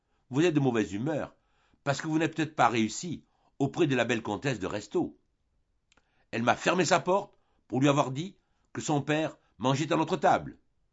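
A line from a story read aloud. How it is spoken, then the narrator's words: Exclaimed. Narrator (French): s'écria Rastignac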